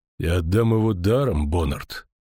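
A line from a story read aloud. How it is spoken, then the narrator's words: Hollow, muffled. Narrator (Russian): наконец глухо сказал он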